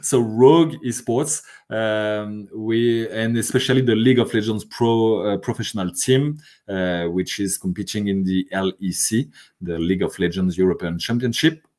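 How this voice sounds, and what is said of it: French accent. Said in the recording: “this is my French accent.”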